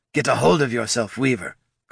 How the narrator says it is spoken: Goldson snapped

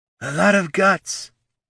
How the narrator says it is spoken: the woman snarled at Gorm

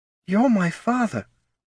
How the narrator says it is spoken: breathed Aubie

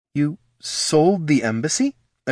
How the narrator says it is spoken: exclaimed Laruna, forgetting herself

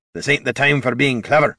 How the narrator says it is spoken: Gorm growled

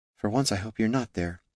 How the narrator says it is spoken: she whispered to the woods

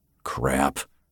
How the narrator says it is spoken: Finn grumbled

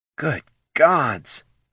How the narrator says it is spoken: breathed Poldo

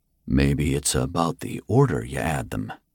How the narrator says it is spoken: Finn murmured

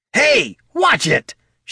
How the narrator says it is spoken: shouted Bert from wherever he was hiding

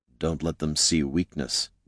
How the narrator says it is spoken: Jin muttered to Gorm

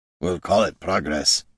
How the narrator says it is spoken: Gorm muttered to Caitha

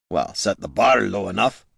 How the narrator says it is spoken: grumbled Gorm

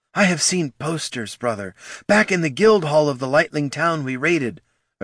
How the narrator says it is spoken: Ashurzu blurted

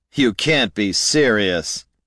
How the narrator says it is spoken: Haraldin sneered

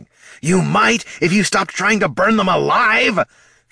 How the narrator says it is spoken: Thane hollered

